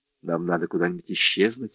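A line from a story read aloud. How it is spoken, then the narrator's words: Plain. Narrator (Russian): сказала Кора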